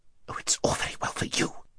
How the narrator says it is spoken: whispered Haravis rather savagely

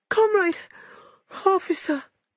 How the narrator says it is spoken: cried

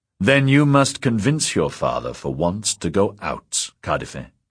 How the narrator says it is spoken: said Carr, in a commanding tone he had never used with her before

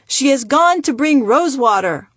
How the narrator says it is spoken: The family yelled

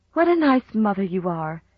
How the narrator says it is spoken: she sighed

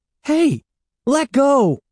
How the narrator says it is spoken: he cried angrily

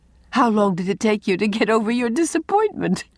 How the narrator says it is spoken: asked Anne, amid her laughter

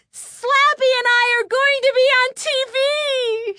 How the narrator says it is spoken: she cried

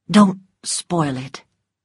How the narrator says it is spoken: said quietly

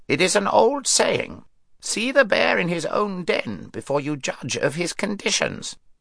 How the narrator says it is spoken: croaked the raven

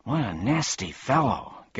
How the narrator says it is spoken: gasped Milo

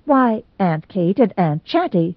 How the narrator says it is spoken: said Mrs

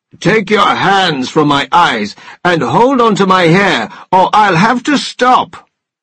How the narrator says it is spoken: roared

